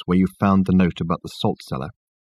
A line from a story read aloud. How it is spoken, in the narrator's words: he asked Richard in a low voice